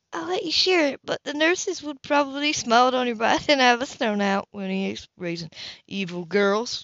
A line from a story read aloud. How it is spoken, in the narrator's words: Kilraven muttered